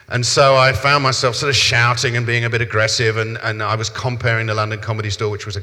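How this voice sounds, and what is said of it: South London accent. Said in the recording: “my accent is South London ... my accent got a little bit more cockney-mockney”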